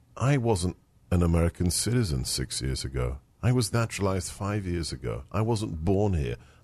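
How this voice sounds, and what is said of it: Speaks with a noticeable foreign accent. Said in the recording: “I've got a funny accent.”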